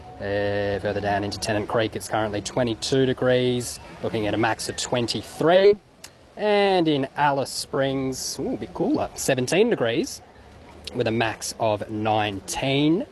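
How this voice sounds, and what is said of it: Imitates an official weather-report voice. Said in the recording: “best Bureau of Meteorology impersonation”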